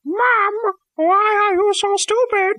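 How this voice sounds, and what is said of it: Stupid-sounding imitation of another person's voice. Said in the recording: “doing a stupid voice? ... I was trying to do my Scapy impression. ... that's not what I sound like.”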